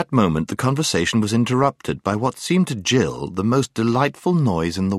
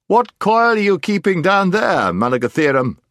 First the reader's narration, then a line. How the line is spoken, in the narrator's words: it shouted